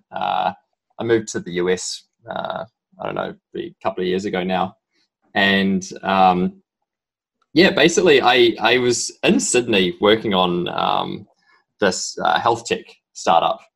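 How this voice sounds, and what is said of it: Strong New Zealand accent. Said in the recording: “my strong accent, I'm originally from New Zealand”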